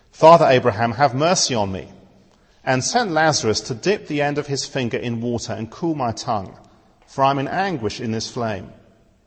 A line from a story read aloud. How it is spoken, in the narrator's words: The rich man called out